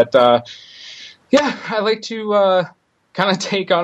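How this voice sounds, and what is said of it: Usual voice. Nothing is said of it.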